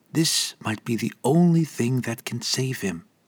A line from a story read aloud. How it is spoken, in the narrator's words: she whispered in Elvish